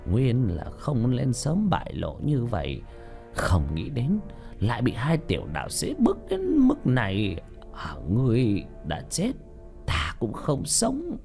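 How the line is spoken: Soft sigh, old demon woman. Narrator (Vietnamese): Quỷ kiềm bà ... khẽ thở dài

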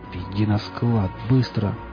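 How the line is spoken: Hissed. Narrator (Russian): прошипел он

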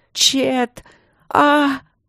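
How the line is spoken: Eerie screaming whisper. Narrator (Russian): кричала принцесса жутким шепотом, и радужка стремительно белела, и сама Ангелина была белая в синеву

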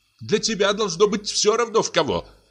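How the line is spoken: Shouted. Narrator (Russian): крикнула Софья Петровна

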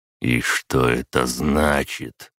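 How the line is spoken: Hoarse question. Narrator (Russian): хрипло спросил опер

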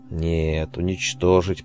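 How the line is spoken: Through gritted teeth. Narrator (Russian): процедил сквозь зубы Ан

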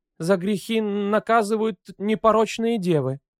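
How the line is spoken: Babbling timid voice. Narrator (Russian): пролепетала Анжела

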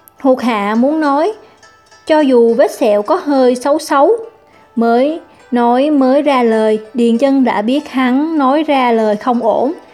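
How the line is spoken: Frightened, hurried. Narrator (Vietnamese): Ma nghiệp hộ pháp sợ hãi, vội bổ sung

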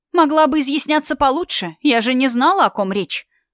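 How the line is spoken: Snapping back. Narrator (Russian): огрызнулись в ответ

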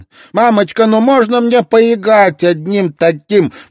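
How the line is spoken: Piercing shout. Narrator (Russian): пронзительно прокричала ей Карен

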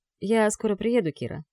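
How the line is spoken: Calm. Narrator (Russian): говорит спокойно

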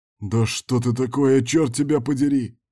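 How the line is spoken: Strained groan. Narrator (Russian): простонал Берг, пытаясь подняться

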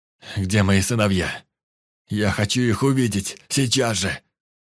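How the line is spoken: Growling, handcuffs clinking. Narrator (Russian): прорычал, звякнув наручниками

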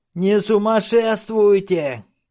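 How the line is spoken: Shouting. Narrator (Russian): кричал Беззубый

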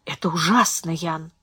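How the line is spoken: Sympathetic whisper. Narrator (Russian): прошептала она сочувственно

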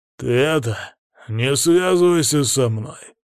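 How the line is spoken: Muffled, through gritted teeth. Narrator (Russian): Уже глуше процедил некромант

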